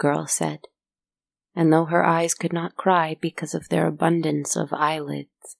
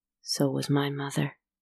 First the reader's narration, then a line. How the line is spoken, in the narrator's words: he said quietly